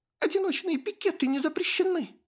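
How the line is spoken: Shrieking. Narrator (Russian): взвизгнула

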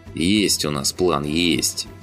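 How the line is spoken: Grumbling. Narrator (Russian): проворчал Тимоха

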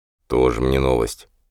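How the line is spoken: Barely audible bitter mutter. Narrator (Russian): еле слышно и с горечью пробормотал Кенни

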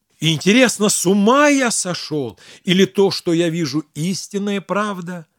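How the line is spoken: Exclamation. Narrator (Russian): воскликнул

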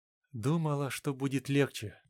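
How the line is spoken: Quiet. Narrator (Russian): тихо сказала она

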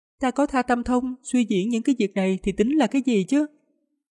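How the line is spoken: Smiling, playful. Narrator (Vietnamese): cô gái áo xám hơi mỉm cười, có vẻ lanh lợi, nói

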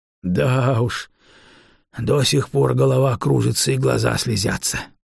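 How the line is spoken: Breathless exhale. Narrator (Russian): выдохнул Кост

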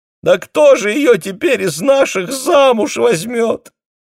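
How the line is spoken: Shocked mother sobbing. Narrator (Russian): всхлипывала в углу мать, пораженная тем, что ее маленькая и такая послушная дочь тайно встречалась с мужчиной

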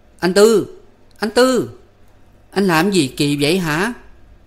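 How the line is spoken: Scolding shout. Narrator (Vietnamese): Phấn kêu như quát tháo

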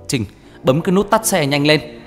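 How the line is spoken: Loud shout. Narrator (Vietnamese): Anh liền hét lớn

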